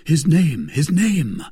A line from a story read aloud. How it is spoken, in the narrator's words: cried D'Artagnan